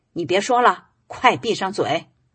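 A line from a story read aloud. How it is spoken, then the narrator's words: Loud angry scolding. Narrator (Chinese): 她丈夫胡老板在一旁瞪着眼大声呵斥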